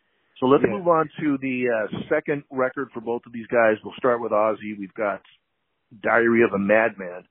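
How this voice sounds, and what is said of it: Voice affected by a cold. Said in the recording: “I kind of have a cold here as I'm talking. I realize my voice is not what it usually is”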